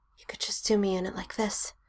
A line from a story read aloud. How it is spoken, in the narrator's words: Sam whispers in a rush, breathing so hard and loud